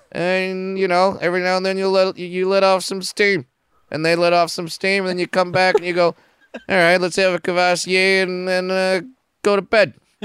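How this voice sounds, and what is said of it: Imitates another person's voice. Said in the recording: “I went kind of Bill Burr there. I'm trying to stick to one accent. Yeah. It's not going great.”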